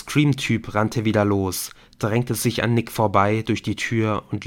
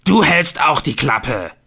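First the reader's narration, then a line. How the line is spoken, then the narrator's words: Bellowed. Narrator (German): brüllte Helen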